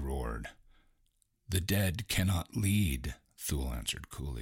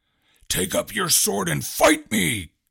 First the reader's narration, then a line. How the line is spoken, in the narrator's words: Gorak bellowed